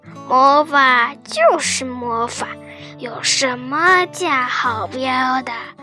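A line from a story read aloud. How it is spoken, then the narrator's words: Slow repetition. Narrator (Chinese): 这个声音慢吞吞地重复了自己的观点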